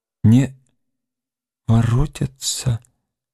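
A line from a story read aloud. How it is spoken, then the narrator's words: Sad questioning repetition. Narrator (Russian): повторила вопросительно печальным голосом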